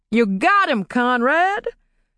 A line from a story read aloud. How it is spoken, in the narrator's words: Clay shouted to his friend